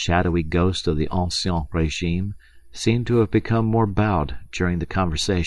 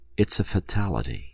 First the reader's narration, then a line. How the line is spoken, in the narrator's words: said in his ordinary conversational voice